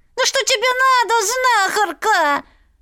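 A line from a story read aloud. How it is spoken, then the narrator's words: Shrieking creature. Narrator (Russian): Завизжала нечисть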